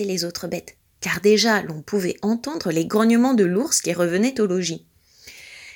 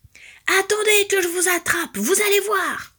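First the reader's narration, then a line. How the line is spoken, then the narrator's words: Bear roaring. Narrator (French): hurlait l'ours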